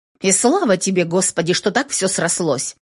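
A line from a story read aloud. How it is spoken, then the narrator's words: Grumbling. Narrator (Russian): проворчала Мари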